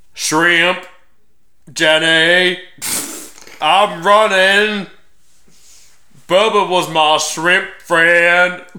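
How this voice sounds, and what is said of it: Forrest Gump character impression. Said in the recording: “my impression of Forrest Gump”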